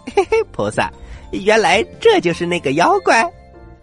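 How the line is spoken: Laughing. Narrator (Chinese): 悟空笑着说

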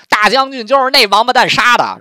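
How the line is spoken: Shout. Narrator (Chinese): 袁绍喊了一句说

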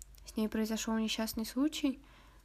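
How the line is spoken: Breathless exhale. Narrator (Russian): выдохнула Брит Мари

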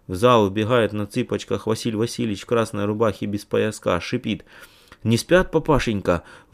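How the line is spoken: Shouting in a strange voice. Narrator (Russian): отец … кричит небывалым голосом

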